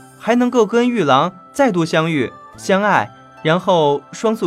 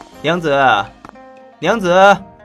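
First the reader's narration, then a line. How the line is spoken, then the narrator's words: Loud, urgent. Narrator (Chinese): 韦燕旋风般卷了进来，大声道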